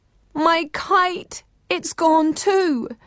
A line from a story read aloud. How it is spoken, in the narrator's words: The other 6 sisters woke with a start, each one wailing